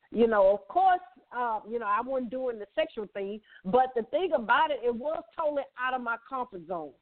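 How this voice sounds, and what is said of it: Southern US woman's accent. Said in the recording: “People love my accent as being a Southern belle”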